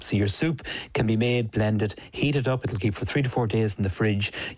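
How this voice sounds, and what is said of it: Irish accent. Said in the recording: “Translate that accent for you ... you have to translate it for people who aren't from Ireland”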